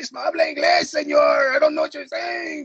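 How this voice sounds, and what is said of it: Put-on Latino Spanish accent. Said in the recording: “That's that accent was terrifying. ... since you are a official Latino guy”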